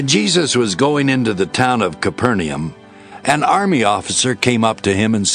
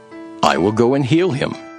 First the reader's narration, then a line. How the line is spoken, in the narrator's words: Jesus replied